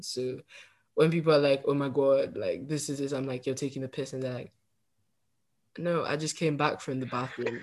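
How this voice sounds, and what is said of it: Northern English accent. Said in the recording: “I just keep my Northern English accent”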